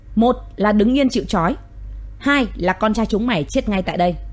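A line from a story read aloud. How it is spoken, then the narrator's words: Loud barking command. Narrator (Vietnamese): Hiếu lé quát lớn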